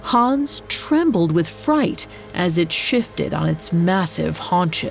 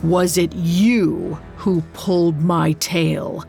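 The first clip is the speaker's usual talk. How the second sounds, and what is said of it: Deep creature voice. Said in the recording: “Its deep voice echoed off the walls.”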